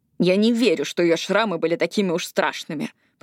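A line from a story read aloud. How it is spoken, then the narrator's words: Grumbled. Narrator (Russian): пробурчала Эшли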